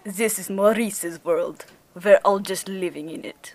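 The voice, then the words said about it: Exaggerated put-on Russian accent. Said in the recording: “a questionable Russian accent ... Oh, that was very good. It was spooky. ... I really went like full”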